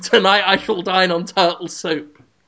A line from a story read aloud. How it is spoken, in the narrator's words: shouting